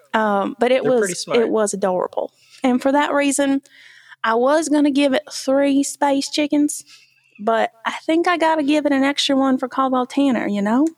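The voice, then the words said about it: Put-on regional accent. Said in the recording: “I'm going to get rid of this accent because I think I've embarrassed myself enough ... So back to Michigan.”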